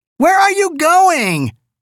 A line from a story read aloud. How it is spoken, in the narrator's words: Elsie shrieked after him